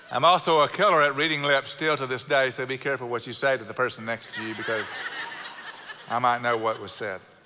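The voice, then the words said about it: South Houston Texan accent. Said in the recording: “she was from South Houston, and I sound like someone from South Houston, y'all. I got her accent. ... My parents have perfect Midwest, Midwestern accents, and I do not.”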